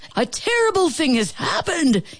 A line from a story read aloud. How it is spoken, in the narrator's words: shouted